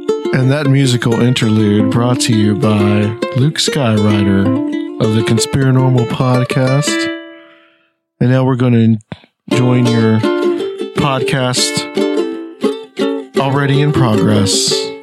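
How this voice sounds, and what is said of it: NPR-style public radio announcer voice. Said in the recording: “Was that your NPR voice? ... That was my NPR voice. ... that's my NPR voice. We need some NPR quality.”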